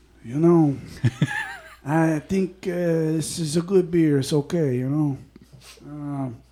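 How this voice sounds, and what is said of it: Mafia gangster voice, Scarface-like. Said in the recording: “do it in your mafia voice ... That's like more like Scarface.”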